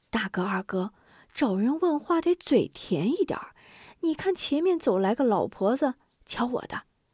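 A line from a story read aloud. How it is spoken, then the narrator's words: Whispering. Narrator (Chinese): 许信悄声说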